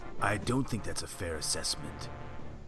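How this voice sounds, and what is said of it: Serious analytical Thrawn voice, slightly British. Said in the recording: “Grand Admiral Thrawn voice... serious, you know, but very analytical... kind of with a little British in it... With a little bit of a British accent”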